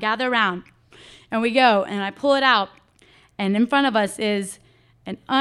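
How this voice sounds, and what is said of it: Usual voice. Nothing is said of it.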